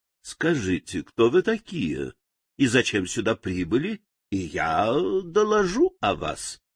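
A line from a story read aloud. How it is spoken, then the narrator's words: Plain. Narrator (Russian): ответила старшая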